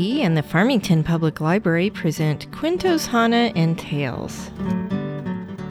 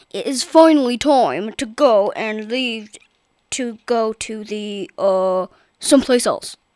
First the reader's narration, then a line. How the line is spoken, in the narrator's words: said Papa in his loud, booming voice